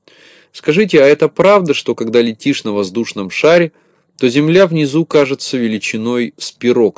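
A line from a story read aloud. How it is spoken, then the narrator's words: Plain question. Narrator (Russian): спросила Знайку Белочка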